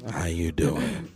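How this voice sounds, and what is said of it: Creepy put-on voice. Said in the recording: “Creepy voice.”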